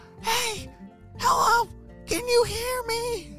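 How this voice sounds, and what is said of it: Whisper-yelling. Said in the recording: “was trying to whisper yell. Do you know how to whisper yell? ... That's a funny way to talk.”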